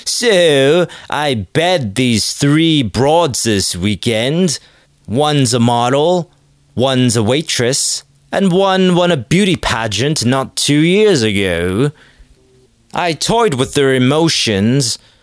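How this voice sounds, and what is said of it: Faint put-on British accent. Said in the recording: “I'm slipping into the faintest of British accents.”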